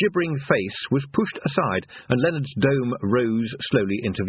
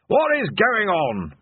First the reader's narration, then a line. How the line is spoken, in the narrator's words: bellowed Ridcully